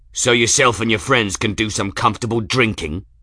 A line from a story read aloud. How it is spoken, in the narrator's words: Pines spat